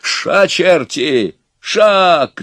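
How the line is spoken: Shouted. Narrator (Russian): крикнул Иван

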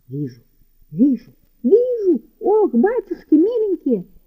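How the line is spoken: Shrieking. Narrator (Russian): закричала Киликея Кликуша

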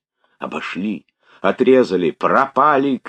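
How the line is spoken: Shouting crowd of runners. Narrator (Russian): кричали голоса бегущих

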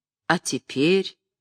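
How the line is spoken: Mocking question. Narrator (Russian): насмешливо спросил Остроухов

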